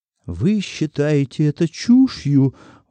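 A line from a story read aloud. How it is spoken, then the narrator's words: Exclaiming. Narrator (Russian): воскликнул Сизи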